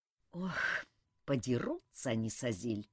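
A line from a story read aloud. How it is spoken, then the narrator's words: Sigh. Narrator (Russian): вздохнул Элмар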